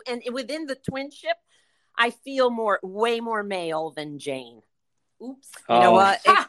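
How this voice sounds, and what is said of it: New York-like Connecticut accent. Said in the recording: “through the accent, I could tell you you guys seem like you're former New Yorkers ... New Haven, Connecticut is like a mini New York in a lot with the accent”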